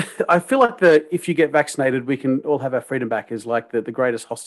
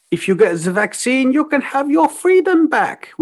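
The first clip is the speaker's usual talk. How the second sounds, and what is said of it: Attempted German accent. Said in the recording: “my my German accent, appropriate. ... I should have practiced that one before.”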